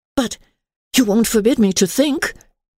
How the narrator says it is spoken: said Emily anxiously

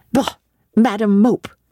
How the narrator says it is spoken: cried the voice of John Reed

